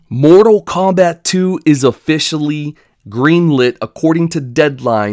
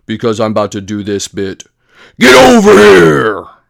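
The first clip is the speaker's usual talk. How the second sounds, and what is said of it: Deep gravelly character voice. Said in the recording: “why did you just switch over to a deep voice?”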